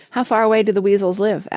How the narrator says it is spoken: asked Penelope

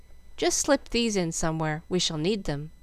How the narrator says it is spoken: Frank ... saying calmly

